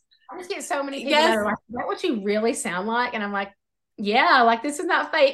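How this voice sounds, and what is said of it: Rural Southern US accent. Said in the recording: “no matter how hick I may sound ... I love your accent”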